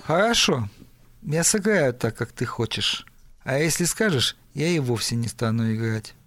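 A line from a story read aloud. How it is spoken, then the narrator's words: Gloomy. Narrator (Russian): тот мрачно сказал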